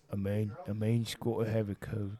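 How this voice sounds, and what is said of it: Imitates another person's voice. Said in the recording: “your impression sucks”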